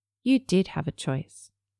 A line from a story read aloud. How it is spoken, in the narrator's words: he said quietly